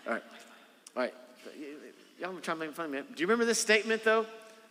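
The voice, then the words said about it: Noticeable regional accent. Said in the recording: “You're making fun of me for my accent.”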